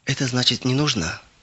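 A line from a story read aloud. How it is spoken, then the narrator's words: Sad. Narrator (Russian): грустно сказал он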